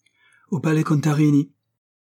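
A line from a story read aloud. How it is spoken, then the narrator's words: Shouted. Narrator (French): cria Luca Dolci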